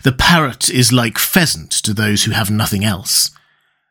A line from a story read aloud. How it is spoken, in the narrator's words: said Ned gravely